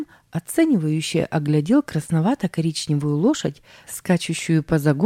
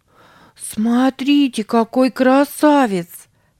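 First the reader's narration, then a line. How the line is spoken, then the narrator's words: Exclamation. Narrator (Russian): воскликнула Сара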